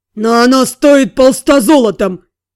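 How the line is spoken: Snort. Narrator (Russian): Сири хмыкнул

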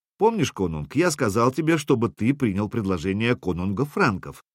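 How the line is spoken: Plain. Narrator (Russian): спросил Сергей

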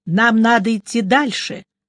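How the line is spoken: Plain. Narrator (Russian): наконец сказал Мелифару

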